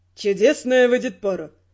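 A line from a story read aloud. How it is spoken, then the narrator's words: Mocking snort. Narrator (Russian): насмешливо хмыкнул Родрик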